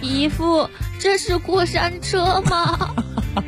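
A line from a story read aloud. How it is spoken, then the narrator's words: Frightened trembling bleat. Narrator (Chinese): 大外甥吓得声音都颤抖了，像绵羊大叫说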